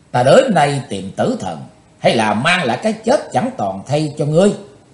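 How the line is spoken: Loud shout. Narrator (Vietnamese): Chí tôn quát to lên

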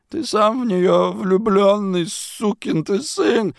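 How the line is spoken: Sobbing. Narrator (Russian): рыдал он

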